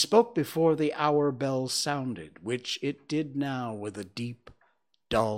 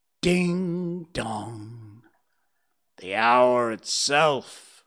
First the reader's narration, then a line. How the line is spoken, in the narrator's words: Scrooge triumphantly said